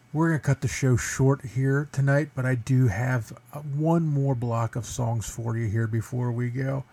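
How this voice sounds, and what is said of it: Hoarse, strained, failing voice. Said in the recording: “I am losing my voice... Not only was I sick”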